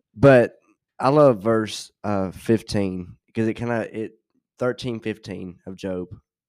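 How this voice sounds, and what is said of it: Hoarse, fading voice. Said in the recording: “Sorry if it sounds like I'm losing my voice. Kind of am.”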